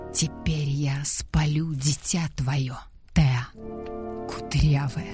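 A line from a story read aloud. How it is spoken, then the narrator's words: Whisper. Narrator (Russian): Гедда, шепотом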